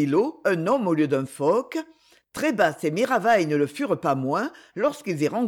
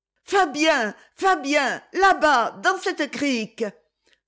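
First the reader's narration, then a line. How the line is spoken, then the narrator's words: Sudden exclamation. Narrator (French): s'écria tout à coup Cyprienne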